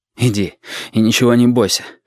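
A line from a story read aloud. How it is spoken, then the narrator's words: Breathed out words. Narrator (Russian): выдохнул Валентин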